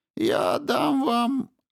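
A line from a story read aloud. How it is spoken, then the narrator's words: Encouraging squeak. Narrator (Russian): ободряюще пропищал тот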